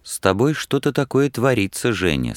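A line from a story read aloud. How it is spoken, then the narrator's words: Quiet. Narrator (Russian): сказал тихо Платонов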